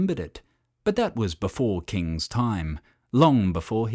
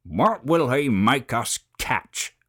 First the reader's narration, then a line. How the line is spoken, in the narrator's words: grumbled the goannas